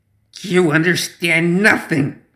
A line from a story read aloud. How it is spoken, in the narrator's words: Zoraida rasped